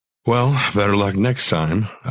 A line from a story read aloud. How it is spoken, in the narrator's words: I sighed